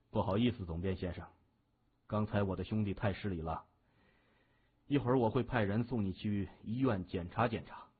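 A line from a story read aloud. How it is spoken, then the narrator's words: Smiling. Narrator (Chinese): 谢文东随后一笑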